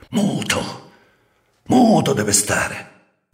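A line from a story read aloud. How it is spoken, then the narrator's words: Hiss. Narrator (Italian): gli aveva sibilato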